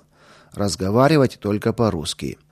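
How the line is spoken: Stern warning. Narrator (Russian): надзирателя, который сразу строго предупредил

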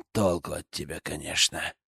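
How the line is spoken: Sighing. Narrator (Russian): вздохнул Дракус

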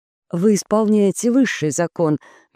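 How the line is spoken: Soft. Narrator (Russian): мягко сказала Пенелопа

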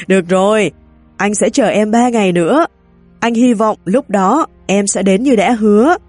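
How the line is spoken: Loud laugh, cheerful. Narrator (Vietnamese): cười to, vui vẻ bảo

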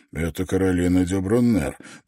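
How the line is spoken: Muttering. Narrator (Russian): пробормотал Давенпорт

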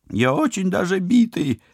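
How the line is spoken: Whining. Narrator (Russian): заскулил падла

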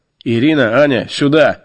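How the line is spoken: Loud bark. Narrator (Russian): рявкнул я на все отделение

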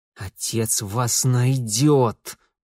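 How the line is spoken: Hiss. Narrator (Russian): прошипел

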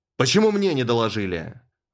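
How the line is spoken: Roar. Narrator (Russian): взревел мистер Оливер

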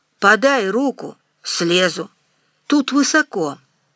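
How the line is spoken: Hoarse wheeze. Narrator (Russian): прохрипел Никита Иванович

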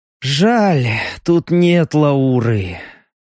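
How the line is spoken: Sigh. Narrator (Russian): вздохнул Леха

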